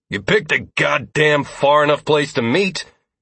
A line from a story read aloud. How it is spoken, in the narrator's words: he spat